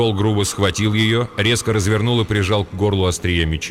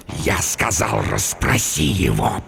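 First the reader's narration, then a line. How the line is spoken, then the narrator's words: Hissing. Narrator (Russian): прошипел он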